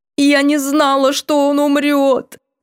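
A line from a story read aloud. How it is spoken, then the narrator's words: Anguished wail. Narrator (Russian): надрывно взвыла Эонора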